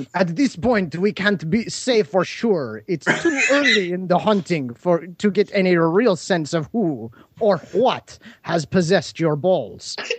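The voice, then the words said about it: Put-on French accent. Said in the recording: “You must do a French accent for Dr. Twerp.”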